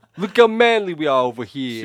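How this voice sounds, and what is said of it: Put-on Boston accent. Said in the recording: “He just develops an accent. ... She's suddenly from Boston.”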